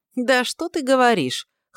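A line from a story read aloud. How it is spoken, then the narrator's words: Snorting scoff. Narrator (Russian): хмыкнул Дар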